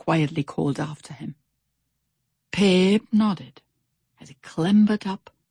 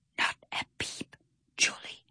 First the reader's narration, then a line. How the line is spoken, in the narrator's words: he whispered